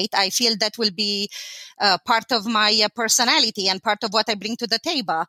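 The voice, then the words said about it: Eastern European accent. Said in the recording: “It's pretty obvious that I have an accent ... they do guess that I'm from Eastern Europe ... I did keep my accent”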